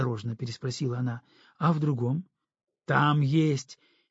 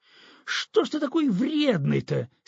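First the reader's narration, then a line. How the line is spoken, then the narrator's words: Angry exclamation. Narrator (Russian): сердито воскликнула Настя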